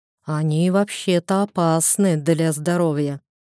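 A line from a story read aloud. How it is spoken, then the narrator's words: Drawl, younger speaker. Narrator (Russian): протянул младший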